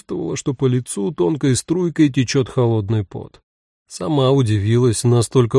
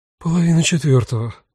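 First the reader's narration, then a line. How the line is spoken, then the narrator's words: Breathed out. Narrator (Russian): выдохнула Рута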